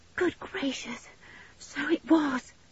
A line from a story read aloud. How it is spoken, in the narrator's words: breathed back George in great relief